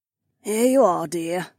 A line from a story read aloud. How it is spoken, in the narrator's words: Becca's mom sighed